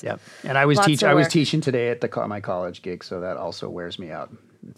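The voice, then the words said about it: Tired, worn-out voice. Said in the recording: “my voice is tired ... I have a cough drop in though because my voice is tired”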